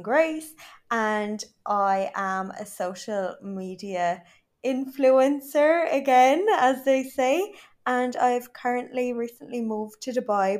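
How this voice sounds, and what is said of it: Irish accent. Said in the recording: “I do not have an Arab accent. I am proper Irish.”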